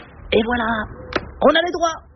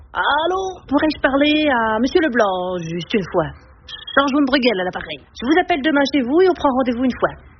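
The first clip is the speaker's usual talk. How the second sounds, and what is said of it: Put-on Belgian French accent, half-mastered. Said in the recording (French): “l'accent belge, je maîtrise à moitié... Je prends l'accent belge ?”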